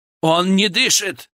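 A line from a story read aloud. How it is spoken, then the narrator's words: Frightened shout. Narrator (Russian): крикнул он, подняв на толпу испуганные глаза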